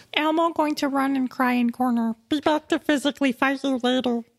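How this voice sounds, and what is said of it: Elmo-like puppet character voice. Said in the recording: “in your Elmo voice”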